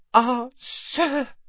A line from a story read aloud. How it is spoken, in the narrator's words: he gasped